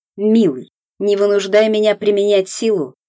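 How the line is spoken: Spiteful speech. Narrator (Russian): злобно сказал Климов

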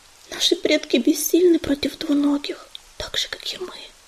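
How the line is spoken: Whisper. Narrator (Russian): прошептала листочка

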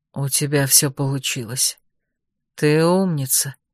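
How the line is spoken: Almost tender whisper. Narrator (Russian): почти нежно прошептал Роже

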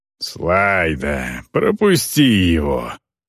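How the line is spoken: Grumbling old man. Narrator (Russian): проворчал старик

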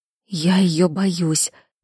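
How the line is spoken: Whispered. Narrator (Russian): прошептала Кира

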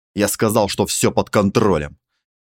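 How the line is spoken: Barked. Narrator (Russian): рявкнул Малькольм

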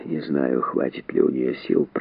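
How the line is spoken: Muttered. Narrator (Russian): пробормотал он

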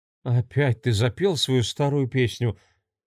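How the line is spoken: Heavy sigh, young woman. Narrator (Russian): тяжело вздохнула девушка

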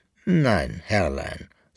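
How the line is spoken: Plain. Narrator (German): sagte der Brauser

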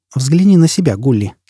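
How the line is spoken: Calm. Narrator (Russian): сказала она спокойно

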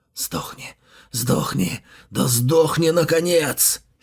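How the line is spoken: Hoarse mutter. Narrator (Russian): Сипло бормотал он себе под нос

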